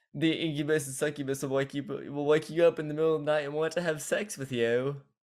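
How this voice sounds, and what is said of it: Laughing imitation with attempted accent. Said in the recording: “I will say this in laugh because that's how he said it in laugh, like as a joke ... My accent's horrible ... I just wanted to like try to copy him”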